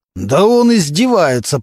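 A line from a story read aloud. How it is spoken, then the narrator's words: Growling. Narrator (Russian): продолжал рычать Мантуленко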